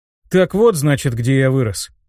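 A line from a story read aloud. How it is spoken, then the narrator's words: Amused snort. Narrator (Russian): хмыкнул я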